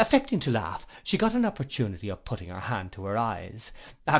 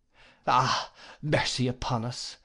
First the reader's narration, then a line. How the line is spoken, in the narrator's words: sighed my aunt